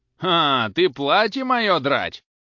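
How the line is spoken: Shouting. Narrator (Russian): закричал Захар

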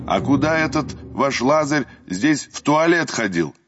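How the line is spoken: Loud young visitor asking. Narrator (Russian): громко поинтересовался один из юных экскурсантов

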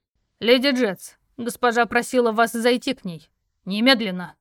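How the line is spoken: Loud bark. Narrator (Russian): Гаркнул он

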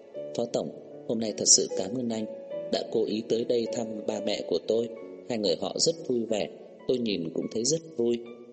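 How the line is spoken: Soft, smiling. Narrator (Vietnamese): Nhã Tuệ ... khẽ mỉm cười, ... nói

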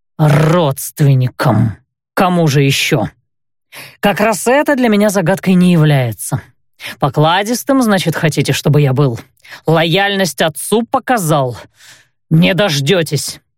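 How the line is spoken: Through clenched teeth. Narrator (Russian): процедил он

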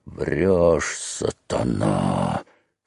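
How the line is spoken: Hoarse wheeze. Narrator (Russian): хрипел Федька

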